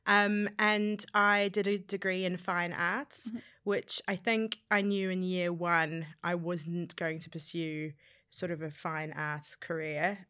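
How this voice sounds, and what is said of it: New Zealand accent. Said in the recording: “I grew up in New Zealand... that's my strange accent that you can hear”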